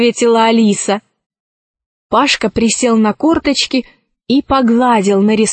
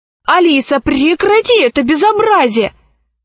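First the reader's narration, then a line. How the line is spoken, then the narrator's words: Shouting. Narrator (Russian): закричал Пашка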